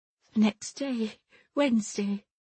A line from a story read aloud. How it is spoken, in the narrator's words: said the young woman in a broken voice